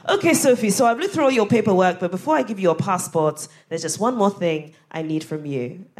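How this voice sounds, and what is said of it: Put-on Ghanaian accent. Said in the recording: “I'm about to do a Ghanaian accent”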